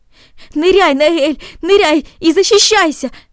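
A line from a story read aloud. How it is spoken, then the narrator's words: Shouted. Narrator (Russian): закричал он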